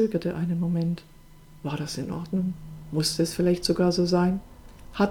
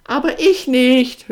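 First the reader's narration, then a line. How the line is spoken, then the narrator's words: Loud, from inside. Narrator (German): hörte er sie von drinnen, so laut, dass auch Pasquale dies hörte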